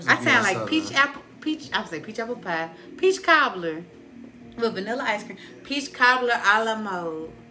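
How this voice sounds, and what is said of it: Strong, fast Southern US accent. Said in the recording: “this southern accent ... I'm fast and country ... Because it's strong ... It's very strong ... a southern accent”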